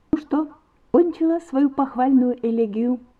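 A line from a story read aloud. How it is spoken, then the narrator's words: Laughing. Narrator (Russian): сказала, смеясь, Вера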